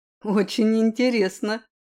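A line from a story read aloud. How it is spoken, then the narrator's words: Amused grunt. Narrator (Russian): хмыкнул Ри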